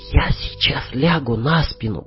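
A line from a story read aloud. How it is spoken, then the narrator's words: Whispered. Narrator (Russian): прошептала она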